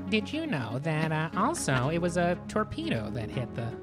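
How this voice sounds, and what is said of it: Whiny, weaselly little boy narrator voice. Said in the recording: “in the loose change narrator voice ... the most whiny, weaselly little boy voice”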